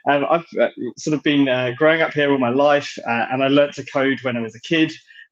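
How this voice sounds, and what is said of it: British accent. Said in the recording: “you can probably tell by the accent that I'm British”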